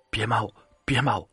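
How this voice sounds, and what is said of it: Weak, tearful pleading voice. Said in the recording (Chinese): “带着哭腔，声音软弱无力”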